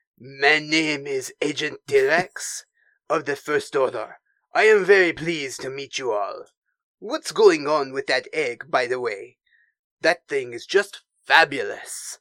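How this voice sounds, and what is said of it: French accent like Pepe Le Pew. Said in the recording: “sounds like Pepe Le Pew in my head ... That's not the worst French accent I've heard”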